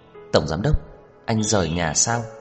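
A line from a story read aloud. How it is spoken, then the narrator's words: Sighing. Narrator (Vietnamese): Trần Mạn Hồng thở dài nói tiếp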